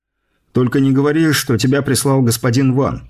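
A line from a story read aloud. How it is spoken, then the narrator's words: Wry snort. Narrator (Russian): хмыкнул я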